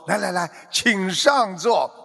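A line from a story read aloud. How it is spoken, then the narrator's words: Obsequious, repeated greeting. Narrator (Chinese): 满脸陪笑，连声招呼说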